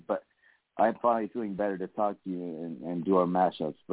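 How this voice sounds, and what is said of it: Slightly raspy voice. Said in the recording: “my voice is still a little rasp”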